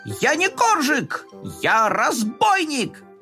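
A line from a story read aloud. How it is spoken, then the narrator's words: Shouting. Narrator (Russian): Коржик прокричал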